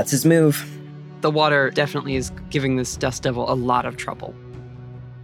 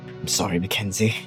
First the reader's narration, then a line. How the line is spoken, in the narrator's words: very quietly, he just like whispers